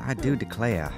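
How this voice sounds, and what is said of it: Put-on Southern accent. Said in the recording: “My inner voice has a southern accent.”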